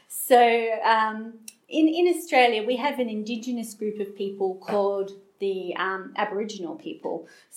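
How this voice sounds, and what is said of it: Australian accent. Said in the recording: “I'm Australian, if you haven't picked that up from my accent”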